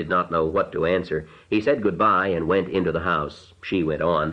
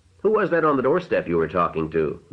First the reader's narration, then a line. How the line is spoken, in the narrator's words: the mother said sharply